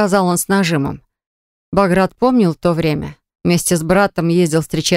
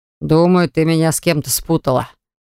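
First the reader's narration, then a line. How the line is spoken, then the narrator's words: Confident. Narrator (Russian): проговорил он уверенным голосом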